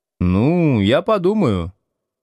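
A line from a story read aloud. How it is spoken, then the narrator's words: Uncertain agreement. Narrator (Russian): неуверенно согласился Слушкин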